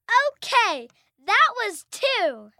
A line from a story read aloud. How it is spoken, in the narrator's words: His daughter, trying to motivate him, shouts